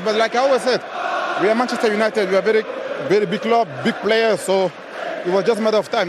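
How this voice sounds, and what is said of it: Cameroonian-accented English. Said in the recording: “that Cameroonian accent is good for me.”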